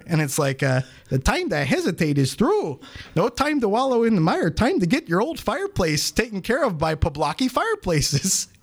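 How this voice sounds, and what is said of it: Put-on radio commercial accent. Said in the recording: “That accent... You really sold it.”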